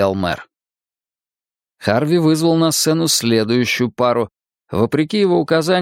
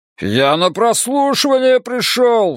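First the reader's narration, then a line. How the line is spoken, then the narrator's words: Howled. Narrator (Russian): взвыл Островский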